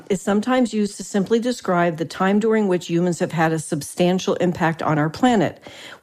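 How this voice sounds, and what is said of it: New Jersey accent. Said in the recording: “You say it from the Jersey accent.”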